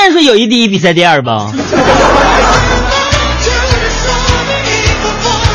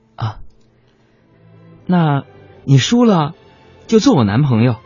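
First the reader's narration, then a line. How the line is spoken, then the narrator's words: Shy and quiet. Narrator (Chinese): 女神小红红着脸小声说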